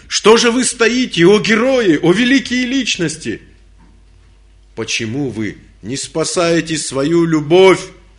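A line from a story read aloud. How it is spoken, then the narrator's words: Shout. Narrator (Russian): закричал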